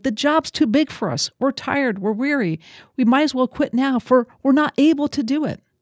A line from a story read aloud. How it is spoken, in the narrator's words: the people cried out, saying